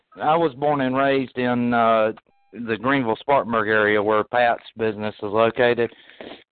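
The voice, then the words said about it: Southern US accent. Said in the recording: “my mom's from Northeast Georgia, just outside of uh, Chattanooga, Tennessee. So a lot of my accent actually comes from that area.”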